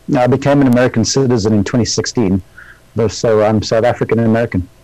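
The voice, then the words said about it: South African accent. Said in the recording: “my weird-sounding accent over here in the United States, and that's because I was born in South Africa ... people love your accent”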